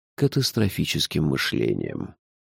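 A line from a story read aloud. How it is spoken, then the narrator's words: Calm remark. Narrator (Russian): спокойно заметил Шурф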